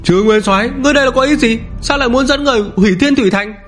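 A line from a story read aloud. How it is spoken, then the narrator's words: Furious roar. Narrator (Vietnamese): một thân ảnh chật vật tức giận gầm thét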